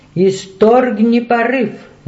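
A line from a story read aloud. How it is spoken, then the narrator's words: Shouting. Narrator (Russian): закричал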